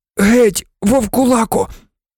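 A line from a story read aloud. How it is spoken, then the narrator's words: Moaned. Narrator (Ukrainian): але Рон простогнав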